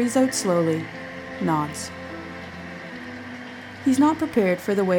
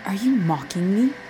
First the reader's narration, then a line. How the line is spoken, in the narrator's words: hisses